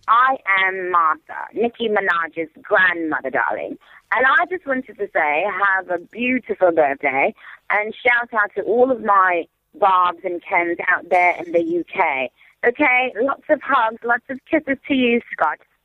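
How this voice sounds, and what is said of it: Put-on British accent, drifting. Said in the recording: “I love her British accent ... She does need to work on that a little bit, because she is going slightly South African / Australian.”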